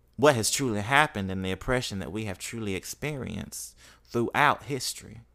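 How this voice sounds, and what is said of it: Mississippi accent. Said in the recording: “my Mississippi accent coming out”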